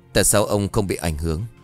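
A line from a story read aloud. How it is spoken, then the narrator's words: Trembling question. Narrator (Vietnamese): hắn run rẩy hỏi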